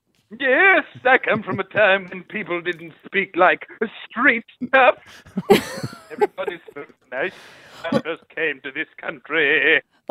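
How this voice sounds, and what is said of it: Prim and proper ghost voice. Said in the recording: “You sound like a very prim and proper ghost.”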